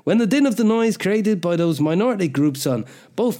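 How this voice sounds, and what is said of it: Put-on accent that falls apart. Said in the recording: “I don't know where this accent's going ... that fell apart completely, didn't it, into coughs and stuff”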